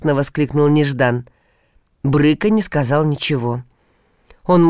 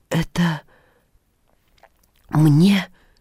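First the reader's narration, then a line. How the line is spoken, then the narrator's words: Trembling disbelieving question. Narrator (Russian): дрогнувшим голосом спросил Илья, не веря своим глазам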